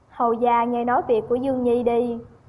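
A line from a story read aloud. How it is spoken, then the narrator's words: Sighing. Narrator (Vietnamese): Thái hậu thở dài, nói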